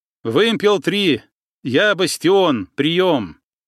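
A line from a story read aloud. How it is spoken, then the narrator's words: Loud statement. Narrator (Russian): Громко произнес Кикоть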